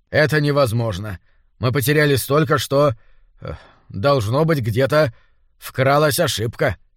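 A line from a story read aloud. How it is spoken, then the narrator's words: Mutter. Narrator (Russian): пробормотал Грант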